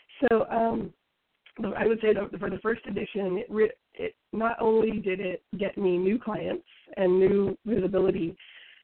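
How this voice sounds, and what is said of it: Sick, strained voice. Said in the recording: “I apologize for my voice. I'm recovering from the flu.”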